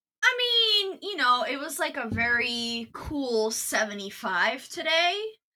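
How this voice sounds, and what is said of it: Sarcastic delivery. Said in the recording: “I was being sarcastic”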